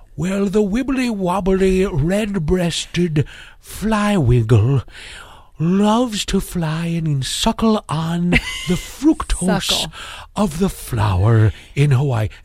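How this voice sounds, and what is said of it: Impression of a British nature narrator. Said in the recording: “the dinosaur British guy ... he talks like this ... my best impression. I wish I could do a better David Attenborough. ... I thought it was pretty spot on.”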